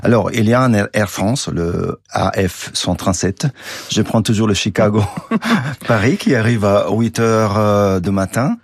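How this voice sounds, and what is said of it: Strong Italian accent. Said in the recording (French): “même avec mon accent très italien”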